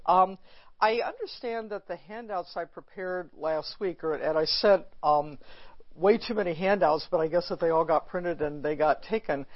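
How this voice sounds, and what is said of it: Voice hoarse and congested. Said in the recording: “As you'll hear from my voice, I'm at the tail end, I hope, of a cold.”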